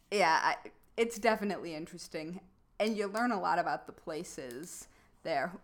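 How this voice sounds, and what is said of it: Heavy Midwestern American accent. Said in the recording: “my Midwestern accent's pretty heavy at the moment”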